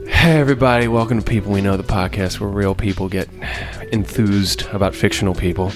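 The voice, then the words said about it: Smooth public-radio announcer voice. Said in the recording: “That was like an NPR voice”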